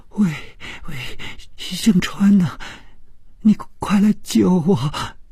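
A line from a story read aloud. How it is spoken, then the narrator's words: Tearful, terrified voice. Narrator (Chinese): 这声音充满了哭腔，并且非常的恐惧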